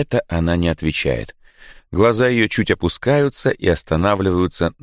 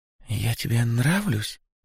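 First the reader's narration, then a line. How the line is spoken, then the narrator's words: Barely audible question. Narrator (Russian): спрашивает едва слышно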